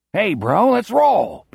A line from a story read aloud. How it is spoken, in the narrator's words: Beezer yells